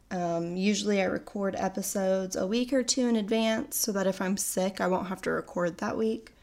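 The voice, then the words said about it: Sick, weird-sounding voice from a cold. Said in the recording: “I am coming off of a cold, so I'm very sorry if my voice sounds weird ... sounding a little sickly”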